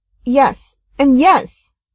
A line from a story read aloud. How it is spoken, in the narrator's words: Rodney snapped